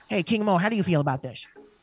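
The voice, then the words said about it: Old lady voice impression. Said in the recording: “he has this old lady voice ... he sounds very much like a character from King of the Hill”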